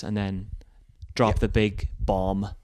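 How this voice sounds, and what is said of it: Put-on Northern Irish accent. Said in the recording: “I said bomb in a really Northern Irish accent”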